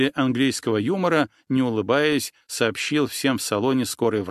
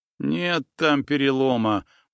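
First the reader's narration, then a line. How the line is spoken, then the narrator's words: Muttering. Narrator (Russian): пробурчал Павел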